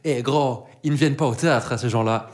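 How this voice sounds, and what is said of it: Exaggerated strong accent imitation. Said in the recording (French): “une dame qui me dit avec le plus bel accent possible”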